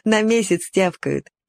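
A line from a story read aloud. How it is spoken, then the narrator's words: Laughing. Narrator (Russian): засмеялся Толик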